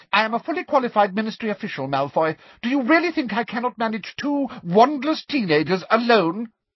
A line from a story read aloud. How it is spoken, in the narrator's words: asked Umbridge sharply